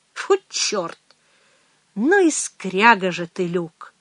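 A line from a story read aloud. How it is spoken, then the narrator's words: Quiet. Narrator (Russian): негромко продолжала Мэгги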